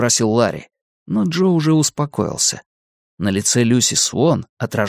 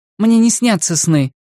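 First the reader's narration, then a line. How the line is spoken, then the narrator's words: Sharp reply. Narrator (Russian): ответила она резко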